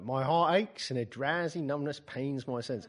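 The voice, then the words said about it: Put-on Cockney accent reciting poetry. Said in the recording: “I always do Keats in a Cockney accent ... Keats was a Cockney”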